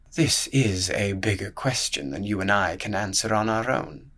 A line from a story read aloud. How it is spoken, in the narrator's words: muttered the piglet at length